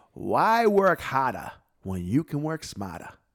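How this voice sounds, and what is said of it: Imitating another man's accent. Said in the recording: “this is in his accent”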